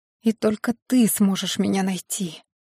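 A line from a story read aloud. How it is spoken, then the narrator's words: Whispered. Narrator (Russian): прошептала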